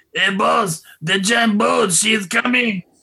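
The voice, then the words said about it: Tattoo (Hervé Villechaize) voice impression. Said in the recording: “do a fairly adequate Tattoo impression ... the best Hervé Villechaize impression in the business”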